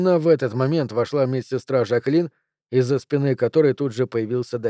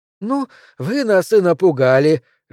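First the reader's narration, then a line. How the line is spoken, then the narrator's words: Cheerful exclamation, plump woman. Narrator (Russian): жизнерадостно воскликнула полная белокурая Матрона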